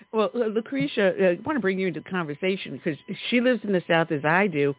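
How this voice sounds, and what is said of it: New York accent. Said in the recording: “You can tell I've got a New York dialect on me”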